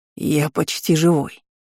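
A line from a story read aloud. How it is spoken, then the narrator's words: Wheezy voice behind door. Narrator (Russian): просипели за дверью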